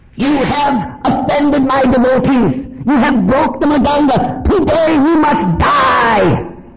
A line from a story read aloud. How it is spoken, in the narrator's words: was roaring